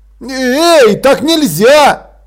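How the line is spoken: Shouted. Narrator (Russian): крикнул капрал

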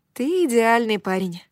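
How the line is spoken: Dreamy sigh. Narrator (Russian): вздохнула я мечтательно

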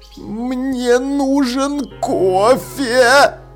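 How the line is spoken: Groaning. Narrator (Russian): застонал Маладикт

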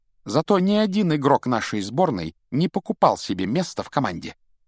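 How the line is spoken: Crisp clipped delivery. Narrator (Russian): отчеканила Гермиона

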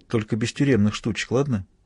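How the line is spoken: Quiet warning. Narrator (Russian): тихонько предупредила

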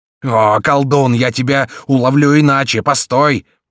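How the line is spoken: Roaring. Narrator (Russian): проревел Гриф

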